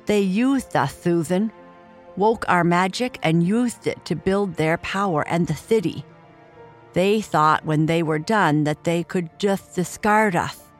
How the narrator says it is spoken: he swallowed, his lisp disappearing

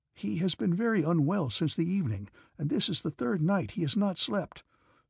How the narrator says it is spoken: said the orderly pleadingly in a whisper

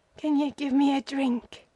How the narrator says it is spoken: he whimpered

